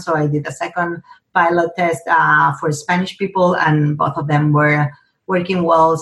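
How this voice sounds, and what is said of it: Spanish-accented English. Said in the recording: “as you probably noticed with my accent, I'm bilingual in Spanish”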